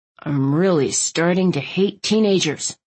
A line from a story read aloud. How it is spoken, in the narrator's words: Landon muttered